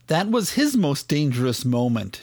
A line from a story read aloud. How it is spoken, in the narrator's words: she said